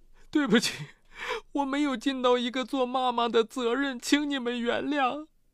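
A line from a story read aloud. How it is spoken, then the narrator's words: Crying. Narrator (Chinese): 张月忍不住哭着说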